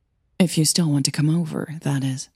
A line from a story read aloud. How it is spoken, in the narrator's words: Hannah said softly